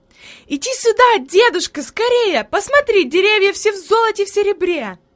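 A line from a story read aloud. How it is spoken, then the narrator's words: Joyful child's shout. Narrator (Russian): Хайди запрыгала от радости и закричала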